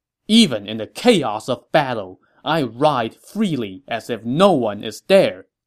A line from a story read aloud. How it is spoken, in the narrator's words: Guan Yu scoffed